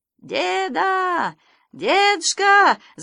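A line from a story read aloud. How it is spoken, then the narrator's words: Shouting over engine roar. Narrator (Russian): закричал Санька, стараясь пересилить рев мотора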